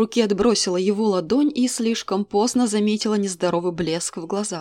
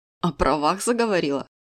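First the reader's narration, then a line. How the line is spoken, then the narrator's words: Mage smirking. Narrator (Russian): хмыкнул маг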